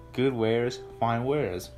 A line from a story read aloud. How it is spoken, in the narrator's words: said